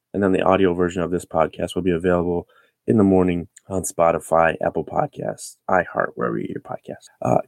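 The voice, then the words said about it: Sick, under-the-weather voice. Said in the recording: “Excuse my voice. I'm a little under the weather.”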